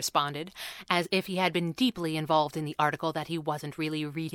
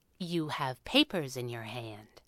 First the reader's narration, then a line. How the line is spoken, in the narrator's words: Abigail said, calmly and professionally